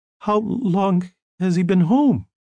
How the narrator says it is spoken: Her voice broke a little when she asked

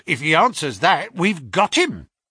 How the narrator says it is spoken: cried Lestrade

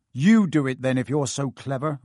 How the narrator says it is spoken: Ron snarled

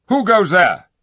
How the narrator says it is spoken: shouted the king

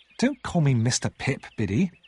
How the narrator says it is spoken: I said crossly

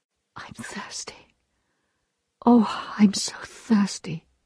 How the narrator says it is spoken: she sighed

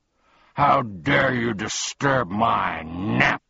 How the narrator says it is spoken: he bellowed furiously

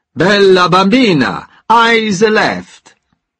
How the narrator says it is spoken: he shouted

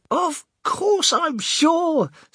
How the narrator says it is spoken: spluttered the old man excitedly

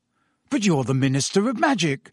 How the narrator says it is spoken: said Harry eagerly

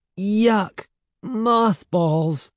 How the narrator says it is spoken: cried

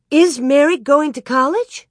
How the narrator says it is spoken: Laura cried out

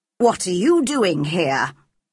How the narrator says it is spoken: she asked crossly

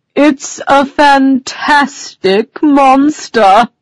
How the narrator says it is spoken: the unicorn cried before Alice could reply

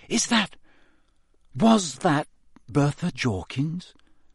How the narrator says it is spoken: Harry whispered

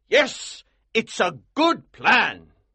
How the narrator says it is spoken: cried

